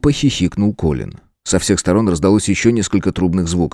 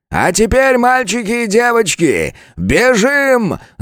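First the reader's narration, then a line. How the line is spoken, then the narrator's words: Yell. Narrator (Russian): заорал Анкард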